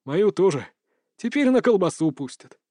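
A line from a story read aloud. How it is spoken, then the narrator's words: Sad sigh. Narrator (Russian): грустно вздохнул Васильчиков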